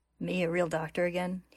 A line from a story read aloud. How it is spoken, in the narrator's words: He mutters to himself